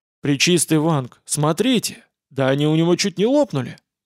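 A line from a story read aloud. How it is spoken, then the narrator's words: Emotional exclamation. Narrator (Russian): Неожиданно эмоционально воскликнул возница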